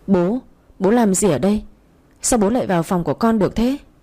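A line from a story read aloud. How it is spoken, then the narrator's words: Panicked stammer. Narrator (Vietnamese): Tôi vội hốt hoảng lắp bắp nói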